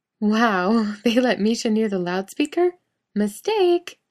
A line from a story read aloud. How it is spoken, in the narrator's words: Genevieve says with a laugh